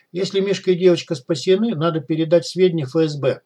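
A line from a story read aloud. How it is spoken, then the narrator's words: Plain. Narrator (Russian): сказала Яна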